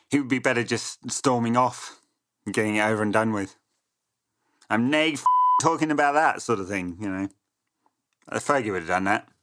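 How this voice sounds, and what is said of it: Weak, quickly dropped Scottish accent. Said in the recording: “What an amazing Scottish accent that was. ... Awful. Got as far as the A in the nay. ... And just dropped it entirely.”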